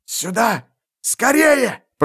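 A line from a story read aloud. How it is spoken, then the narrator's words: Hoarse urgent rasp. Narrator (Russian): просипел он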